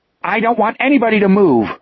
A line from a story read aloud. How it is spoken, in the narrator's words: the tall boy shouted up at the closed window